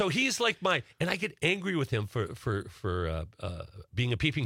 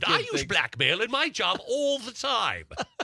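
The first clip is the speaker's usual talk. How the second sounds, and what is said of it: Put-on English accent, professorial. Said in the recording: “I don't know why I have an English accent. I always think of professors. ... You do the accents really well, though.”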